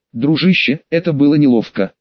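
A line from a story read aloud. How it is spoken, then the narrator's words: Plain. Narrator (Russian): сказал Дина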